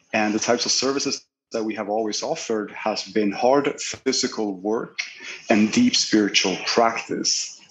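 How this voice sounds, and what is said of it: Scandinavian accent. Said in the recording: “I figured he's Swedish or, Nor- or Norwegian, one or the other, by the accent”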